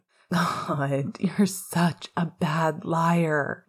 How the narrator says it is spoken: groaned again, louder this time, while throwing his head back

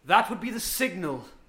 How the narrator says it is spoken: Sylvanas shouts

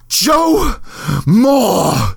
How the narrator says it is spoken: She screamed

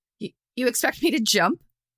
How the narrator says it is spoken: Nolan sputtered

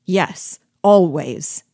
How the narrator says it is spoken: returned, furiously

